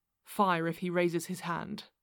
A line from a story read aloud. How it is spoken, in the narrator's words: said Holmes quietly